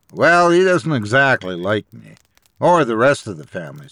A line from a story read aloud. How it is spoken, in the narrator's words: said Theo